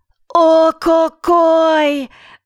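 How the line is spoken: Shout. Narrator (Russian): закричала Пэп

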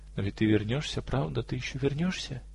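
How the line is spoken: Sad question. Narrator (Russian): спросила она грустным тоном

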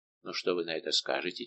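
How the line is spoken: Quiet question. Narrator (Russian): тихо спросил Фуке Пересона

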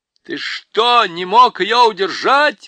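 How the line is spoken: Yelled. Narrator (Russian): вопил Юстас

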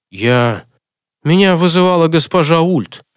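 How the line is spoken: Through gritted teeth. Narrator (Russian): сквозь зубы проговорил ему Альфред

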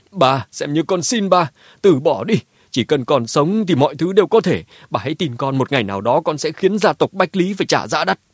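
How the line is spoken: Tearful loud shout. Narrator (Vietnamese): Đôi mắt Mã Tuân đỏ hoe, hét lớn

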